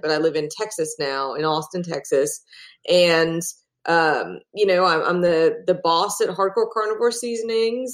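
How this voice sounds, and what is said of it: Hybrid Australian-American accent. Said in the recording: “I'm originally from Australia, which is why I have a very strange hybrid accent,”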